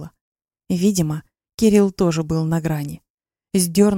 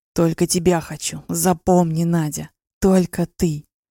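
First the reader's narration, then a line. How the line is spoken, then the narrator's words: Hoarse whisper. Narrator (Russian): шептал в затылок севшим голосом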